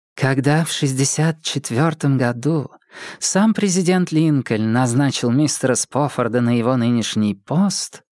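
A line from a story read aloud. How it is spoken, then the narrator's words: Unexpectedly feminine chesty voice. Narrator (Russian): сказала она неожиданно женственным грудным голосом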